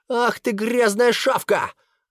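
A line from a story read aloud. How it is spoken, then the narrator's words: Screaming boy. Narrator (Russian): завопил мальчик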